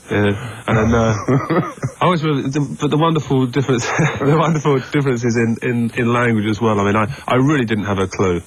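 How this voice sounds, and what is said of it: English accent. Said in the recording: “I was very self-conscious about my accent ... someone with an English accent”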